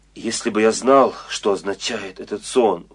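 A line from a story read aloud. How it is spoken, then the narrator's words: Exclaiming. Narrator (Russian): воскликнул фараон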